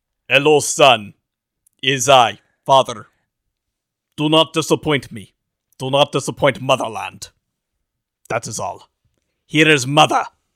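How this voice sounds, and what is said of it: Put-on Russian accent. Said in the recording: “Our Russian accent. ... We'll do the entire series with those voices.”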